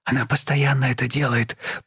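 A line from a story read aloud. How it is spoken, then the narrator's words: Whisper. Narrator (Russian): прошептала Елена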